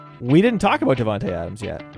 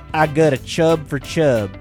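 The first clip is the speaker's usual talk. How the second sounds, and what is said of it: Put-on Southern accent. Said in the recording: “it's a southern accent that's not him.”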